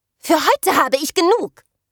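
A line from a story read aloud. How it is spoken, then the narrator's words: Shouting. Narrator (German): schrie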